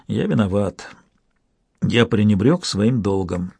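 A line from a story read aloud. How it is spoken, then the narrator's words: Quiet reply. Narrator (Russian): тихо ответил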